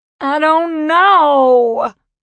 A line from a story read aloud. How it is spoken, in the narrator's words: she wailed, up to top volume now